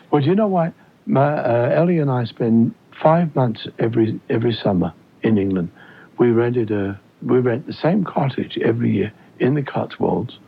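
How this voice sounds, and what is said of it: Mild British accent. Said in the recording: “British accent ... You have lost your accent a little bit, but not really totally”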